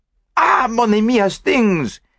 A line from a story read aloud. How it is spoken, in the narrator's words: he cried